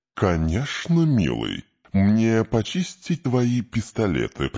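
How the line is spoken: Cooing. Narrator (Russian): проворковал корабль

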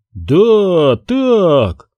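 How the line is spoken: Joyful repetition. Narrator (Russian): радостно повторил Гуэр

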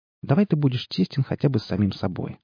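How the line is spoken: Plain. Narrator (Russian): ответила Алла

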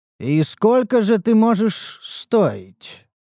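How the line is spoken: Thoughtful drawl. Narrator (Russian): протянул я задумчиво

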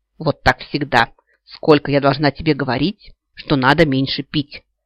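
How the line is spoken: Loud commanding woman. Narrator (Russian): Громким командным голосом вещала какая-то дама

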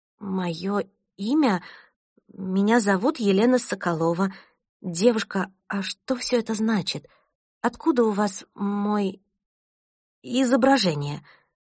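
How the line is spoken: Stammering with agitation. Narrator (Russian): От невероятного волнения я начала заикаться

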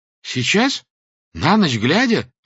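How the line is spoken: Frightened exclamation. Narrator (Russian): воскликнул он испуганно

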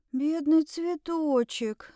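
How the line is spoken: Barely audible breath. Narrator (Russian): на грани слышимости выдохнула

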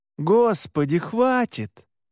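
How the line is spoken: Strained, hoarse laugh. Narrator (Russian): Я надсадно рассмеялся

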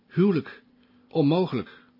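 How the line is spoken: Stammering. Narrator (Dutch): stamelde Passepartout

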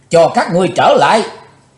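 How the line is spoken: Furious loud roar. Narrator (Vietnamese): Chí Tôn thịnh nộ thét lớn

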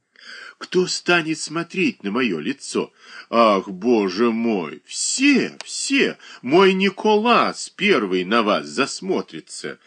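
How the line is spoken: Naive exclamation. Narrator (Russian): Наивно воскликнула Шершнева

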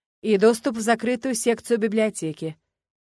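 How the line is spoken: Categorical tone. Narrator (Russian): безапелляционным тоном заявил Ленарт

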